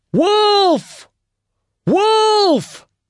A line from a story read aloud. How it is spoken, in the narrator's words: at the top of his voice